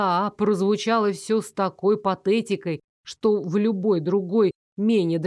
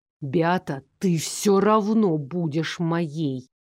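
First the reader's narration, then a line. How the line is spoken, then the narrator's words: Hissing baron. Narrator (Russian): прошипел барон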